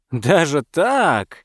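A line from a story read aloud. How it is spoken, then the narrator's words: Hearty chuckle. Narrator (Russian): охотник от души хохотнул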